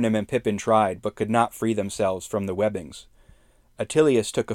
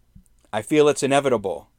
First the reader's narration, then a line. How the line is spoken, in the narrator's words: shouted to his friends as he tried in vain to free himself from the webs